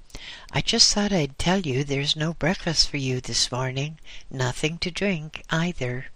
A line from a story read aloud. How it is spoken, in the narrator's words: Brightly, he said